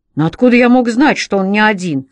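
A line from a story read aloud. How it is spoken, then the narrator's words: Angry exclamation. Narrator (Russian): воскликнул Джо, наливая злостью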